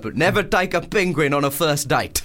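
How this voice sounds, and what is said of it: Put-on South African accent. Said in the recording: “That's a good South African accent. ... It's a really hard accent.”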